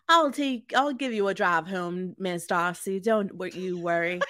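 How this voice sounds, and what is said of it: Put-on Southern accent. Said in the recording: “your southern accent gives me all the life I ever need.”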